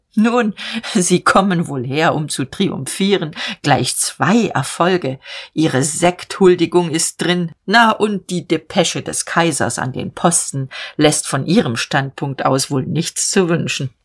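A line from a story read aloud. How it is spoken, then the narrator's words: Brief laugh, then speaking. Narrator (German): lachte kurz und sagte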